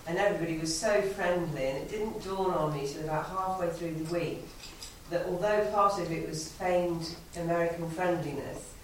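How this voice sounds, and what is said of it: British English accent. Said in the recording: “I was the solitary Brit ... they just loved hearing my cute accent”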